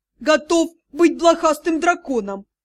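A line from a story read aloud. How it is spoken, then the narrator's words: Ecstatic howl. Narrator (Russian): взвыл счастливчик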